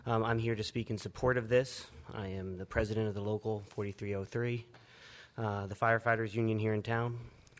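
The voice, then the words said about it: Hoarse, strained voice. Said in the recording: “I've been losing my voice,”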